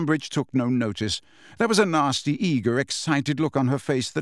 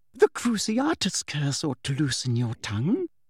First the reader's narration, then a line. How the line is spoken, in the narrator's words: said Umbridge quietly